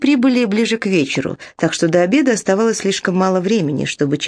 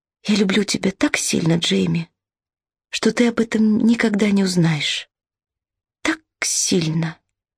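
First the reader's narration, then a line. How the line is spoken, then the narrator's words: Whisper. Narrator (Russian): Изабелла прошептала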